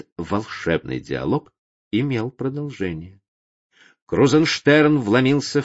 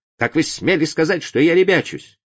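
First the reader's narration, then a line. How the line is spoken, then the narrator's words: Sudden angry shout. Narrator (Russian): Вдруг закричал он, Крузенштерн, на меня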